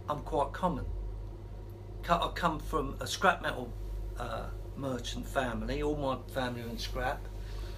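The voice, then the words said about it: Polished media-style English accent. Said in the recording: “my acquired media accent”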